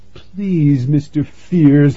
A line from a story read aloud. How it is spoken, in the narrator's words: he will whimper